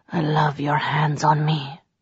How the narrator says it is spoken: breathed

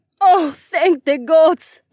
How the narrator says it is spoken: Carmen gasped

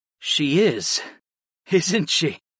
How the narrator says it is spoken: agreed with a small laugh

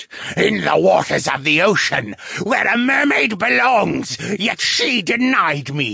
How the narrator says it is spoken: the wraith screeched

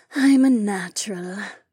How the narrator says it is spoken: Remna said with a sigh

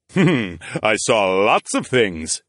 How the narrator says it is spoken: the king chuckled

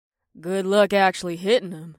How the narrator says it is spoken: grumbled

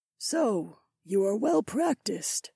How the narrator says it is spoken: Issy murmured

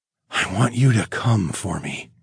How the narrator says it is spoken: murmured against her mouth

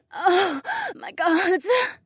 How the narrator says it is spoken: Marina gasped

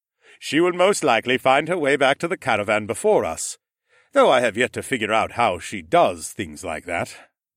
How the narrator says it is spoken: Mech said with a scowl

